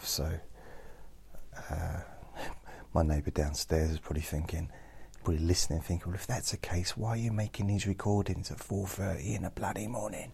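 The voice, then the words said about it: Speaking very quietly. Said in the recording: “I'm talking very quietly”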